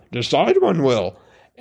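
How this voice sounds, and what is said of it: Yoda impression, inverted word order. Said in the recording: “that sounds like Yoda ... that was my best Yoda imitation.”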